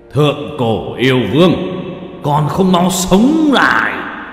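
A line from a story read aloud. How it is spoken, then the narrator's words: Explosive loud shout. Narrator (Vietnamese): yêu lực toàn thân bùng nổ, hét lớn một tiếng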